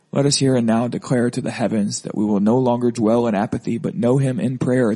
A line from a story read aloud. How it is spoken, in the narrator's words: the young man cried